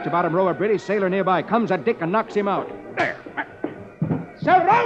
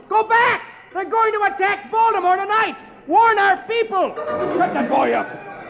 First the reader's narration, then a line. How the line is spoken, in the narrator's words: Dick is shouting to the true ship